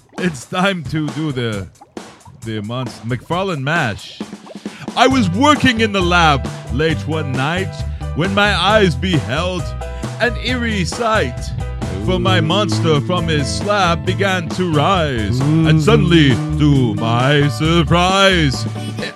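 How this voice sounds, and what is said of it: Dracula accent while singing. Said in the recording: “The Dracula accent”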